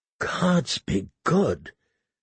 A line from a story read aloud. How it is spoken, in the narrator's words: he said in a choked voice